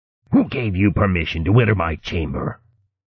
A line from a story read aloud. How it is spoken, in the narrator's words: he growled at Fregorl